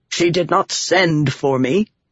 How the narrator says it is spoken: Rohadron snapped

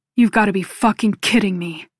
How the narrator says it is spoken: Noah growls

